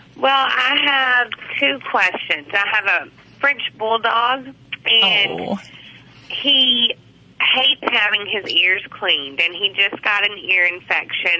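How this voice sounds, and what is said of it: Southern drawl accent. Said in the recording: “I detected a southern drawl. ... Yeah, that's from Arkansas, though.”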